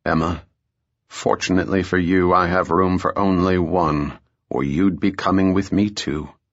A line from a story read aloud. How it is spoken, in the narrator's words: He said coldly